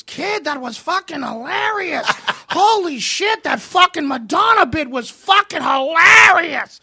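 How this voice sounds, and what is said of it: Heavy Boston accent impression. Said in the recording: “That heavy Boston accent”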